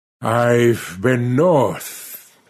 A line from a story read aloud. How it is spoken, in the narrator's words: he said, speaking slowly and painfully between puffs at his pipe